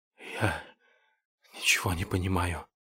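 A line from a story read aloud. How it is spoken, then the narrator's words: Whispered. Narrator (Russian): прошептал пациент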